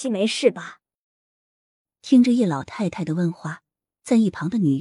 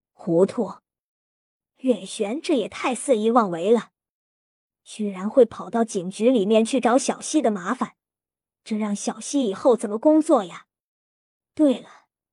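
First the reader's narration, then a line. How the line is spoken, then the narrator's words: Angry old woman. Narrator (Chinese): 叶老太太怒声道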